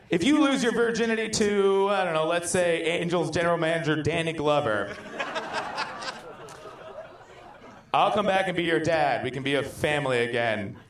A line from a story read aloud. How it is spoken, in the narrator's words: Roger's father said while laughing